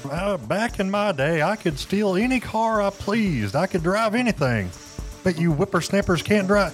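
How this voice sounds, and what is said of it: Hank Hill-style old Texan voice. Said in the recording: “full impression or accent ... somewhere between Hank Hill and Bill Dotrieve”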